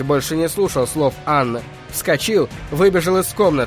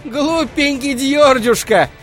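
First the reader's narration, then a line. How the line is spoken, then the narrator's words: Calling after. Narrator (Russian): кричала ему вслед Анна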